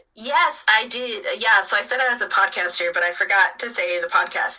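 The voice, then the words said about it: American accent. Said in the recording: “in case you can tell from my accent, I'm American.”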